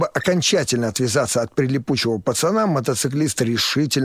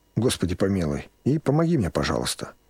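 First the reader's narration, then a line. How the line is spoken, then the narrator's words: Whisper. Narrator (Russian): Мотоциклист прошептал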